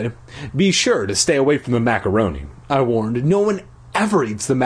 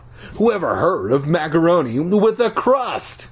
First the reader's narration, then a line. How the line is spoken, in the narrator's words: Iris laughed